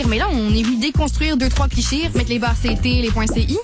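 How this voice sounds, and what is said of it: Montreal accent blended with French. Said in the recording (French): “c'est un bel entre-deux, hein? ... c'est une fille de Montréal. Montréal, elle parle de même, là. ... pas à ce point-là.”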